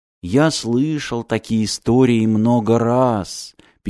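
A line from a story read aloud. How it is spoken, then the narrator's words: Sad. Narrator (Russian): печально сказал ключник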